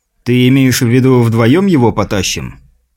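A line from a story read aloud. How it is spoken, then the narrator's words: Snorting. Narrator (Russian): Сильвер хмыкнул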